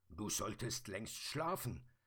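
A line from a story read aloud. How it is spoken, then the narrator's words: Grumbling. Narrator (German): brummte der Sandmann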